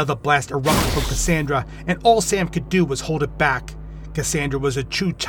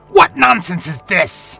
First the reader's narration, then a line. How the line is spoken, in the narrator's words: The hideous beast spat